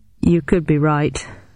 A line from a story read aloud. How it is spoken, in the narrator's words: sighed Bowden